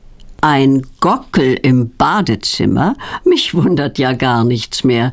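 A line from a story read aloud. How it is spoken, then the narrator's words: Laughing uncle. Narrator (German): lacht Petronellas Onkel Berti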